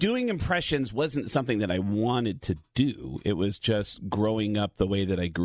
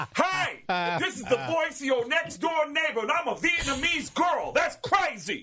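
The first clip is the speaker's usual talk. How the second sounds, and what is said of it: Bronx accent like Tracy Morgan. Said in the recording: “Everybody in the Bronx sounds like Tracy Morgan. ... Everybody in the Bronx talk like this.”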